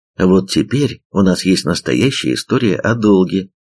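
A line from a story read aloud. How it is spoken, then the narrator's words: Plain. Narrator (Russian): ответил он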